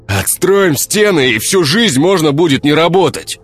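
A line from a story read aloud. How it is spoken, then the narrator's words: Shout from crowd. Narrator (Russian): крикнул кто-то еще из толпы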